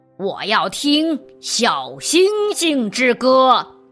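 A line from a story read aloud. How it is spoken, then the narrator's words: Loud. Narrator (Chinese): 夏夏狼大声地说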